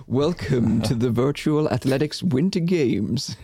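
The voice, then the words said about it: Dramatic announcer voice. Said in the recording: “announcer voice, like this Hunger Games voice, where things start to open in the arena ... This sounds like I'm going to the Olympic Games in London.”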